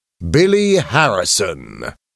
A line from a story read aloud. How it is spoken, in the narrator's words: he said loudly